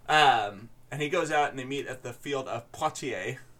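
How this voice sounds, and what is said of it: French accent. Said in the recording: “I know I'm saying everything with a French accent. It's I can't help it.”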